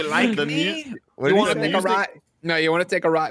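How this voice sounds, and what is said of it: Stereotypical Mexican accent, imitating Chris O'Donnell. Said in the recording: “Chris O'Donnell doing a very fucking stereotypical Mexican accent or Hispanic accent”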